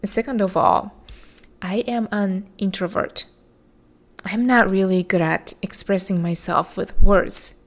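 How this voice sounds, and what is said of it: Non-native English accent. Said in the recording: “English is my second language. I don't speak perfect accent free English.”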